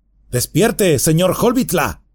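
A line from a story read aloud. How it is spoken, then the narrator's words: Man shouting. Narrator (Spanish): gritaba el hombre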